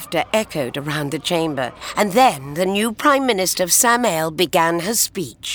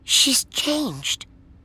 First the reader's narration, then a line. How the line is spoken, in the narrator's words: Jo whispered